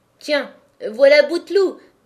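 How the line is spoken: Sneering laugh. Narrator (French): dit Zacharie en ricanant

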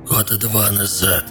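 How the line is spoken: Hoarse reply. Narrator (Russian): сиплым голосом ответил Горбыль

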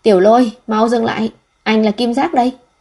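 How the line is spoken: Breathless all-out shout. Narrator (Vietnamese): Tôi bắt đầu hụt hơi ... dùng hết sức lực hét lên

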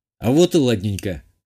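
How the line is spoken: Smug snort. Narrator (Russian): хмыкнул я

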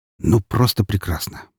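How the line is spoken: Mumbling. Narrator (Russian): пробормотал я

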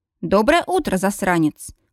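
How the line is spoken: Snorting, tossed-off remark. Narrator (Russian): Хмыкнув, бросает мне Стейси

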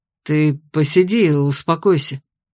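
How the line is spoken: Through gritted teeth. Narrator (Russian): сквозь зубы предложил блондин

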